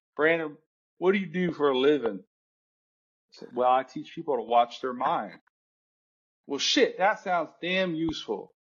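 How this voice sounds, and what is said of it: Put-on Southern US accent. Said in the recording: “I can mimic a Southern accent.”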